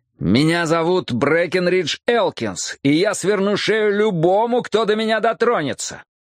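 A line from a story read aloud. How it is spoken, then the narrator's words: Frantic shouting. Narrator (Russian): закричал я, теряя остатки разума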